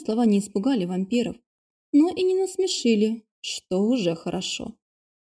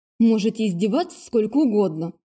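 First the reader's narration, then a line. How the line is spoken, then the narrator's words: Angry, through clenched teeth. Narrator (Russian): зло процедила я сквозь зубы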